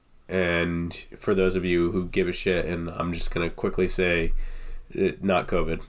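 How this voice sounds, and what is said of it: Congested, slightly rough cold voice. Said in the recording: “I'm nursing a cold a little bit. My voice is a little fucked up ... stuffy nose, cough”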